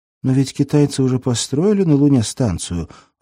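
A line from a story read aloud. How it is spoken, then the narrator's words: Timid. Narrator (Russian): робко сказала Дуня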